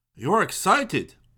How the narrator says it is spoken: exclaimed

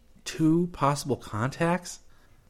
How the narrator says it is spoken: Chris whispered

